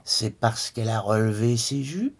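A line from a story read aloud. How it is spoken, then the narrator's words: Mocking fluty voice. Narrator (French): persifla le père d'une voix de flûte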